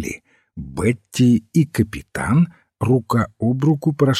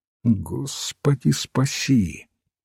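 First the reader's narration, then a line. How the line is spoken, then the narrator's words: Muttered. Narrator (Russian): пробормотал отец Браун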